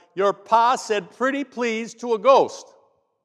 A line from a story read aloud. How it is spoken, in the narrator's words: Frowning, Dale shouted